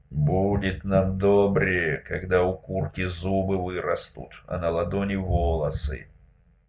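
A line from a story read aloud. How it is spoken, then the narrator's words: Grumbled. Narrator (Russian): Лишь Герасим пробурчал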